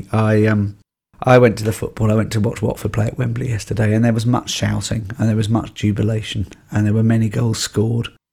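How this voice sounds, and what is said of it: Croaky, hoarse voice. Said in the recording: “you're a little bit croaky, aren't you ... I am a little bit croaky ... my voice is a little bit croaky”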